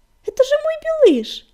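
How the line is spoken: Delighted exclamation. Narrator (Russian): восторженно воскликнула принцесса

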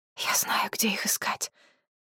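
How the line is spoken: Hoarse whisper. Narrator (Russian): хрипло прошептала жрица

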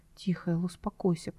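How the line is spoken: Whisper. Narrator (Russian): прошептал он

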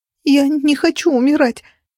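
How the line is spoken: Fake whimpering. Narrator (Russian): захныкала я, проливая крокодильи слезы

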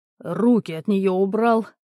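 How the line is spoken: Roar. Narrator (Russian): буквально взревел Стольный

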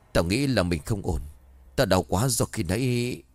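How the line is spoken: Trembling, pained. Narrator (Vietnamese): hắn không chịu được nữa, run rẩy nói

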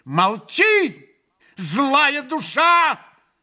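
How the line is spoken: Furious shout. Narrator (Russian): яростно крикнул ему Грушенька

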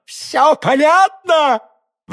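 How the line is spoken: Exclaiming. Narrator (Russian): воскликнул король

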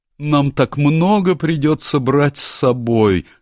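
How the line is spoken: Sad groaning. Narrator (Russian): стонал главный гном, сидевший с печальным видом

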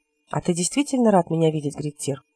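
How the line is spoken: Quiet question. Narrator (Russian): тихонько спросил Хилот

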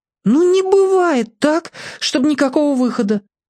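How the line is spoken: Agitated cries. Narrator (Russian): взволнованно вскрикивал Олик

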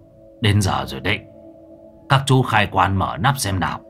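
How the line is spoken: Hoarse loud call. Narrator (Vietnamese): tiếng của ông thầy Miên khàn khàn hô to

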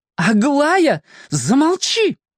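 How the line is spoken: Shouted out. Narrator (Russian): выкрикнула мама

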